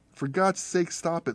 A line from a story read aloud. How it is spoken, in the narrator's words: Lindy said